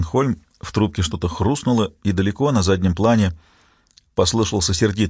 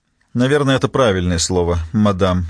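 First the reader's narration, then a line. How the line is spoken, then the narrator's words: Icy tone. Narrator (Russian): ледяным тоном сказала Черстенхольм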